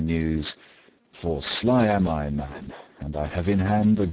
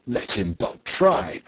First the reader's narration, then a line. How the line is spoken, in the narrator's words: cried the tinker